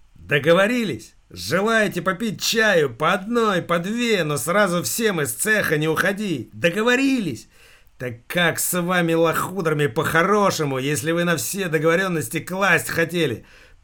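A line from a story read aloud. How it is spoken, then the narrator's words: Almost shouting. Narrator (Russian): Почти закричал инженер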